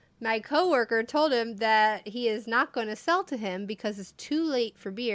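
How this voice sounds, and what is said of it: Usual voice. Nothing is said of it.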